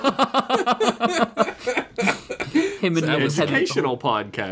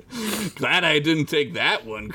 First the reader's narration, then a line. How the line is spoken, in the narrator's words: Cruz said, laughing